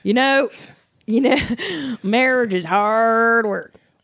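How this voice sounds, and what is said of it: Imitates another person's voice. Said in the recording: “It's is this Dr. Phil again? ... My impression.”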